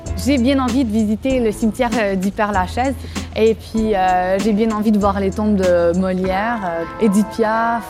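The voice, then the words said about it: Québécois French accent. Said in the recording (French): “la bonne réputation des Québécois, mais dès qu'on entend mon accent”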